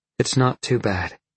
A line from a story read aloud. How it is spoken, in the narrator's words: Jolene said, panting